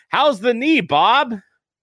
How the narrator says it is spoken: Sanderson yelled out

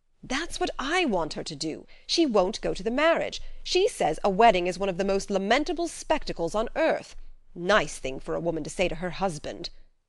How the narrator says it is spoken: exclaimed Mr

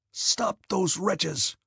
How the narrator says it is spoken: gasped Kutuzov to the regimental commander

